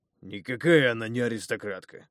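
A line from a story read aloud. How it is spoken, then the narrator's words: Snorting reply. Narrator (Russian): фыркнул в ответ воитель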